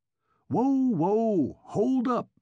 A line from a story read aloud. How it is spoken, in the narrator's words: roared Kennicott